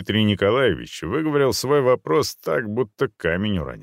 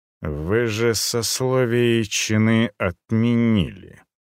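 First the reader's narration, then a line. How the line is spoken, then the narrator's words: Through gritted teeth. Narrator (Russian): процедил Руднев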